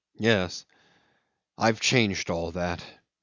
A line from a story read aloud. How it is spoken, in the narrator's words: he muttered in a gloomy voice